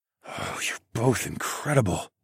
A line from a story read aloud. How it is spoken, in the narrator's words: I rasped out